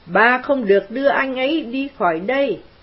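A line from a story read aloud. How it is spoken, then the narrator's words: Woman screaming. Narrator (Vietnamese): nàng hét lên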